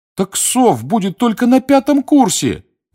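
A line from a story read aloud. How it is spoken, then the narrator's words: Pleading. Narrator (Russian): взмолился Дин Томас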